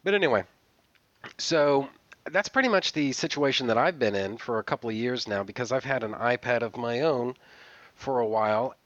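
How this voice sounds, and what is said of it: Congested, slightly raspy voice. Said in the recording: “I'm actually still a little sick. So if I sound, you know, stopped up and if my voice sounds a little bit raspy”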